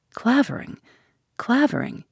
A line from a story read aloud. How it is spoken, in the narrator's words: he murmured, with quaking lips